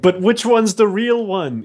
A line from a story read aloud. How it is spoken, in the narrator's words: nervously pointing a gun at you, going